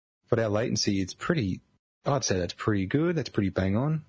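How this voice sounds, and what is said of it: Australian accent. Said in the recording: “I'm in Australia. If you couldn't tell, the New Zealand accent could also be it possibly, but no, I'm in Australia.”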